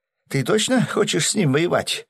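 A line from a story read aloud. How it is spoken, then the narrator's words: Frightened mutter. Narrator (Russian): испуганно пробормотал Гинзо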